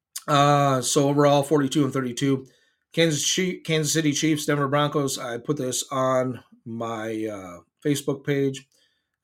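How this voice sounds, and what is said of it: Cracking voice going in and out. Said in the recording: “my voice is going in and out ... his voice... Unreal that it's cracking.”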